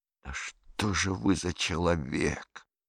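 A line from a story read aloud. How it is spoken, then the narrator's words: Hissing. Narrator (Russian): зашипел он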